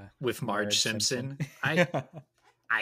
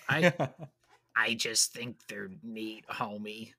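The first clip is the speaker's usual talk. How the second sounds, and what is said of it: Poor imitation of Marge Simpson's voice. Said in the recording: “my terrible Marge Simpson impression”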